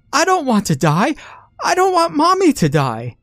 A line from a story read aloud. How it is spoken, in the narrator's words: she let a terrible wail and shouted